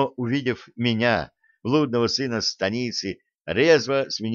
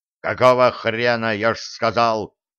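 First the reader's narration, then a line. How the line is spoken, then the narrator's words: Irritated bark. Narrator (Russian): На вторжение традиционно рявкнул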